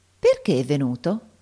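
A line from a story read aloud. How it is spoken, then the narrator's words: Insinuating question after silence. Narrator (Italian): gli domandò Giannina con la sua voce insinuante dopo alcuni istanti di silenzio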